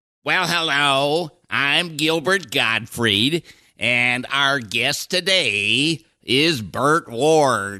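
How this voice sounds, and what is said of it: Gilbert Gottfried impression. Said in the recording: “do a Gilbert impression ... Pretty good.”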